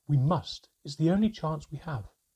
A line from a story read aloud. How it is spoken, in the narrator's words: said frantically